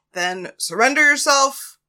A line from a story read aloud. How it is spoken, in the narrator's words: the man yelled back up at Paris